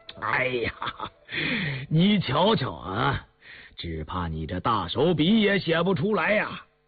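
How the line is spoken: Breathless with laughter. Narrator (Chinese): 康熙忍不住失笑，到后来竟笑不可遏，噎着气说

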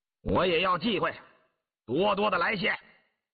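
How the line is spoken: Loud. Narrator (Chinese): 大声说

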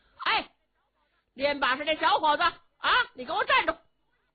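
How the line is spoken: Calling out. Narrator (Chinese): 后边有人喊他

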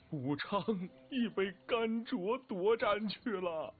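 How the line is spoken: Wailing. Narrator (Chinese): 王涵大哭道

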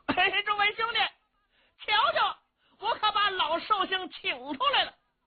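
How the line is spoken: Shouting while walking. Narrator (Chinese): 程咬金一边走一边嚷

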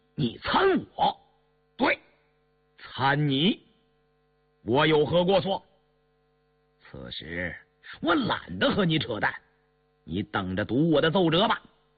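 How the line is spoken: Furious outburst. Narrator (Chinese): 杨明石勃然大怒

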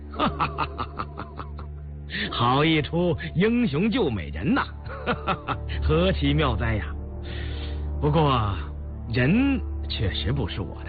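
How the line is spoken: Hearty laughter. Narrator (Chinese): 胤祀哈哈大笑

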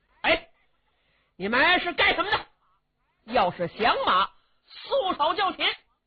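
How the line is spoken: Shouting. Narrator (Chinese): 韩将军冲着秦琼这六个人就喊

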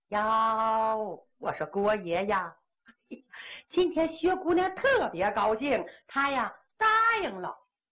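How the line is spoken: Beaming, delighted. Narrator (Chinese): 他眉开眼笑

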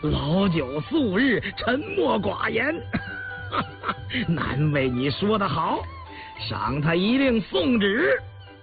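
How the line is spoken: Laughing hard. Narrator (Chinese): 笑得抚着胸口道

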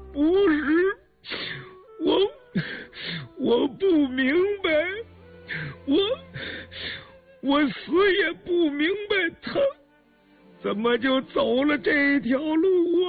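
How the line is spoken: Hoarse, choked, sobbing, broken. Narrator (Chinese): 文七十四低垂着头，苍白的头发丝丝颤动，声音嘶哑哽咽，抽泣着摇头，断断续续地说

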